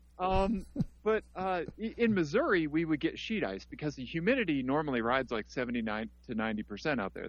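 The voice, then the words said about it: Missouri Midwestern American accent. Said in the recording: “I'm from Missouri, you know, where, which explains my accent”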